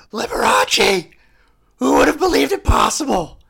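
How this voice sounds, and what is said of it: Owen Meany character voice, shouted. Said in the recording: “do the Owen Meany voice ... We're going to do Owen Meany voice ... Just look for all caps”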